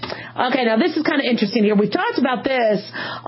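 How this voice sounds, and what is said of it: Usual voice. Nothing is said of it.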